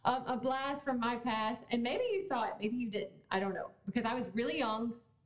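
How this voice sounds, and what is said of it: Strong regional accent. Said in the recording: “my accent was very strong there”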